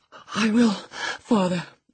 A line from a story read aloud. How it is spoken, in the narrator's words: he panted